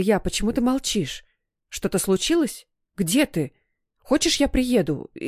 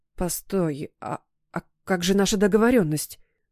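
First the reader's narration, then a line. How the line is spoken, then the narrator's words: Frightened babbling. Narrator (Russian): похолодев, пролепетала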